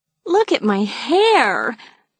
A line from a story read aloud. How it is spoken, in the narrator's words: Maeve moaned